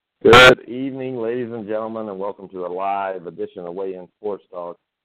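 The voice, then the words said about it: Deeper than normal voice. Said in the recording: “my voice may sound deeper than normal”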